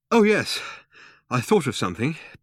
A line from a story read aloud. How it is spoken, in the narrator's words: panted Ford